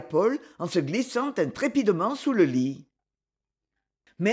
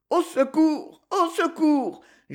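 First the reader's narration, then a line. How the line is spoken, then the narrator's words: Moaning. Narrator (French): gémissait Paul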